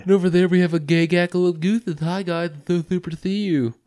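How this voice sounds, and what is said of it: Cartoon character voice impression. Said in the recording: “Now you're being Mr. Garrison. ... that was sounded like Mr. Mackey.”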